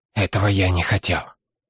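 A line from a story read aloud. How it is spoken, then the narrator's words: Confused muttering. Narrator (Russian): смятенное бормотание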